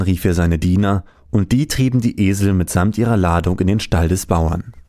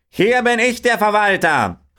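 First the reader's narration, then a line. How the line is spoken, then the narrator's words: Farmer calling out. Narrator (German): rief der Bauer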